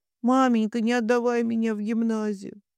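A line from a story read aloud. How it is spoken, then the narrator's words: Sobbing, muffled words. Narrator (Russian): слов, заглушаемых всхлипыванием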